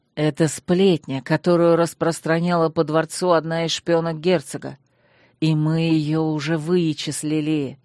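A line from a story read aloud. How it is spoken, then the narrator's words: Fierce hiss. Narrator (Russian): свирепо прошипел Танрад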